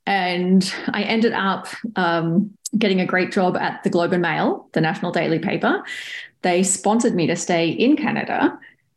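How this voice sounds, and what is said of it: Australian English accent. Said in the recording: “if you're trying to pick the accent, I am Australian”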